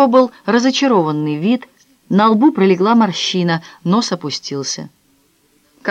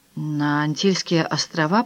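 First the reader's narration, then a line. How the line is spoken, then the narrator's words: Muttered. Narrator (Russian): пробормотал он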